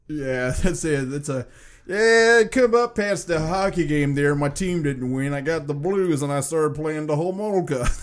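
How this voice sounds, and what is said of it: Put-on northern accent. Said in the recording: “Every type of northern accent I get going there, eh, is always the greater Chicagoland area there.”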